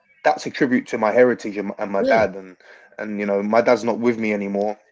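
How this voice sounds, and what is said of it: London-sounding English accent. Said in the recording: “you sound like you're from London”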